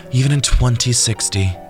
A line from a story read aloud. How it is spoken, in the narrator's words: Jordan sighed